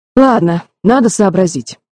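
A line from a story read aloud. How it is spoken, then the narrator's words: Sigh. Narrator (Russian): вздохнул Джереми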